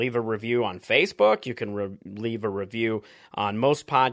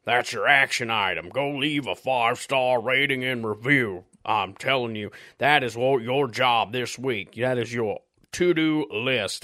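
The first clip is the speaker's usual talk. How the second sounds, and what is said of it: Uppity corporate voice turning southern gentleman. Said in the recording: “I just started going into a weird voice. It started as, trying to be a uppity corporate person, and it turned into a southern gentleman”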